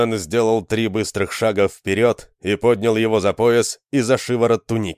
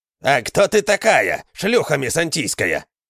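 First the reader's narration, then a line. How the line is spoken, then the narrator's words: Growled, villager. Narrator (Russian): зарычал тот селянин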